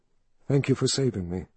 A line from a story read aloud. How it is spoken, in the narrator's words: she said softly